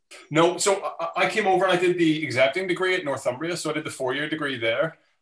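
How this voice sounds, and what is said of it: Belfast Northern Irish accent. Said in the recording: “The accent gives me away ... I'm from Belfast originally”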